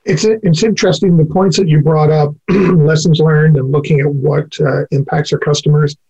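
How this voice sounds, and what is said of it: Voice giving out, hoarse. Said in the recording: “losing my voice”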